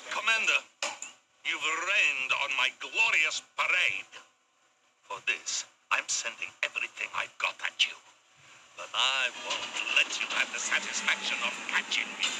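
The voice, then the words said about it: Russian accent. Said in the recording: “Tim Curry with a Russian accent. ... That's so fucking weird.”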